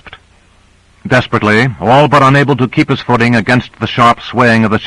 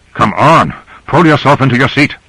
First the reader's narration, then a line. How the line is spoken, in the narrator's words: Grant said urgently to Cora